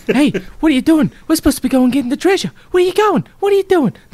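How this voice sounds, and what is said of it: Very bad Mark Wahlberg impression. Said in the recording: “That's my very, very bad Mark Wahlberg.”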